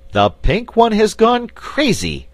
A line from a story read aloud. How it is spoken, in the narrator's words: exclaimed Button-Bright